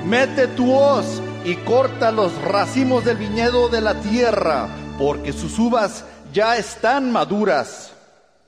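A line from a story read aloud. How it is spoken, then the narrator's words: Angel shouting. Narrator (Spanish): otro ángel que tenía autoridad sobre el fuego y le gritó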